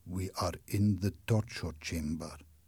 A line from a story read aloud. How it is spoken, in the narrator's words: said the Persian in a quiet voice